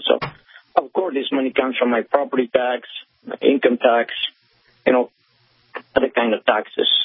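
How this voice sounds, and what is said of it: Foreign accent. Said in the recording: “as you can tell by my accent, I'm a foreigner”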